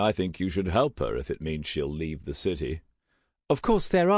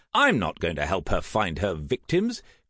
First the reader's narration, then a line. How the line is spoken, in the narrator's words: Graham said in an affronted voice